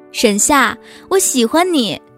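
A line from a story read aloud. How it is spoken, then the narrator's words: Loud shout. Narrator (Chinese): 你却大声的喊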